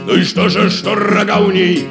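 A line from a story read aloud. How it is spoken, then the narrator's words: Loving shout. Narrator (Russian): кричал жираф любовно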